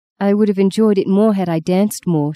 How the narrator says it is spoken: she answered

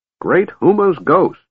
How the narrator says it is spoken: Fizban exclaimed

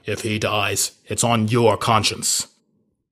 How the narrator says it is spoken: growl

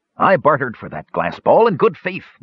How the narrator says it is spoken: Mirtwig said indignantly

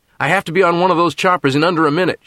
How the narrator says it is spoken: shouted Nat

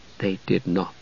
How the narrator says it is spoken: Palin repeated softly

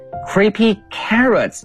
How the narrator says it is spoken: he shouted

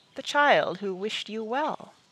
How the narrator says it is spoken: Merriman said softly

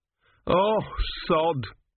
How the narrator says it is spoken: moaned Gurn

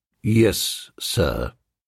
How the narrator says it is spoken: said Jeeves in a low, cold voice, as if he had been bitten in the leg by a personal friend

